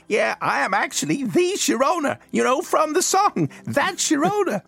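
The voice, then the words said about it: Inaccurate put-on LA accent. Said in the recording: “fiendishly inaccurate LA accent.”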